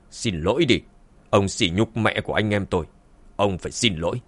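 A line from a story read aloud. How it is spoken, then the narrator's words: Cold. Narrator (Vietnamese): Dương Chấn lạnh lùng nói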